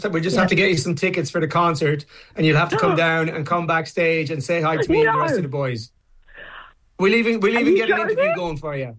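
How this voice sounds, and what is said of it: Irish accent. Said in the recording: “adorable Irish accent”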